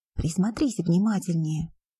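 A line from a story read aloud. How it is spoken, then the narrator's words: Whisper. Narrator (Russian): прошептал Гефестион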